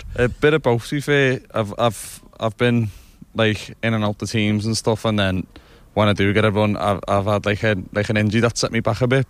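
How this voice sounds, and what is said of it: Scouse accent. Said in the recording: “That accent, we don't need to work out where you come from. It's a Scouser accent”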